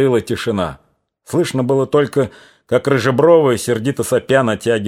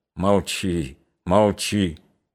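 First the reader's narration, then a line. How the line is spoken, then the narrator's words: Barely audible whisper. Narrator (Russian): чуть слышно шептал он Наталье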